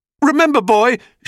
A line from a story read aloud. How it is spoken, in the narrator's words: shouted Apollo